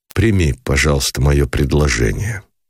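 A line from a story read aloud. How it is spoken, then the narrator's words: Cold interruption. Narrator (Russian): холодно прервал, не дослушав его Никитин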